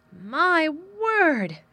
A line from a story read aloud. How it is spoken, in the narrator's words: cried delighted Martha